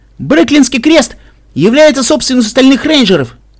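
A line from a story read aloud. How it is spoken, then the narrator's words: Shout. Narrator (Russian): крикнула одна из них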